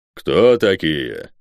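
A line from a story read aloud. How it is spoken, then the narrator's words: Deep bass voice. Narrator (Russian): пробасил гигант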